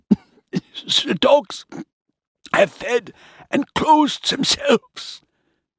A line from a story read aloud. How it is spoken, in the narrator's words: wheezed